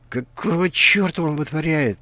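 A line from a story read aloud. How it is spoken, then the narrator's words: Irritated hiss under breath. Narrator (Russian): прошипел себе под нос Каргантус, раздраженный позорным прохождением ключевого испытания своим бойцом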